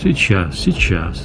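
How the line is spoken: Gentle, affectionate. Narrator (Russian): ласково сказал шеф

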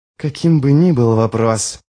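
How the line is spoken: Hissed into ear. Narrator (Russian): прошипел Ярви ему в ухо

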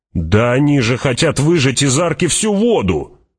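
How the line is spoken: Indignant shout. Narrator (Russian): возмущенно крикнул человек с лучеметом

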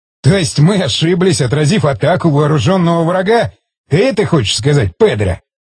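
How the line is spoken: Laughing. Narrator (Russian): Засмеялся Стечкин

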